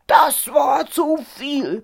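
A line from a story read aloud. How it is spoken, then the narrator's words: Angry roar. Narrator (German): brüllte der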